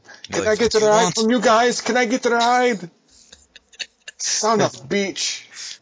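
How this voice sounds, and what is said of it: German-accented villain voice. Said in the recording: “German accent. He sounds like an old Jewish man.”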